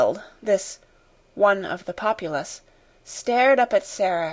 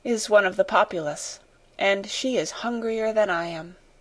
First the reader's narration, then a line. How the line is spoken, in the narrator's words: she said to herself, with a little sigh